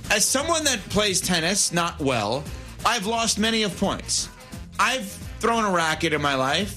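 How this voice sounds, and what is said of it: New York accent. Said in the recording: “I have a New York accent”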